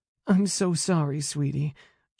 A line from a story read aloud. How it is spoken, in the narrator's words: murmured over and over in my ear